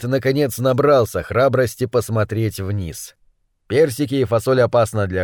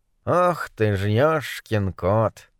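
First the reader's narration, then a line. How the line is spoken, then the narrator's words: Sigh from behind bars. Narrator (Russian): вздохнул Моррис из-за решетки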